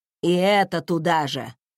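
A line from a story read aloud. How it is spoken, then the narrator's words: Grumbling old woman. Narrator (Russian): проворчала тетушка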